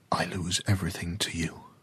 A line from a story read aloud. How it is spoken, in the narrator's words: he whispered to the ocean